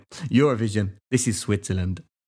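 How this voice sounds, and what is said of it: Put-on Swiss accent. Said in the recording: “You did a Swiss accent then ... Was that your ... universal accent? ... It's universal.”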